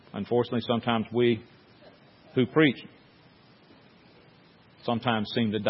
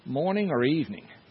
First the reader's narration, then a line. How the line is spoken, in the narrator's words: he hesitated for a moment, and then he looked up at her and rather in a timid voice said